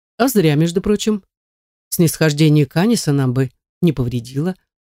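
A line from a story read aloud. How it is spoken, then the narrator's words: Sly, drawling. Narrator (Russian): ехидно протягивает Гильям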